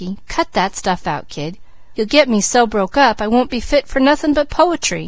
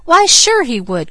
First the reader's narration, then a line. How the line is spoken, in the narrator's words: cried Mickey with his most elaborate flourish